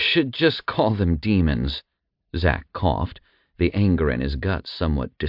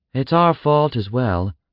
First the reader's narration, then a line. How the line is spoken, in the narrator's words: Thea sighed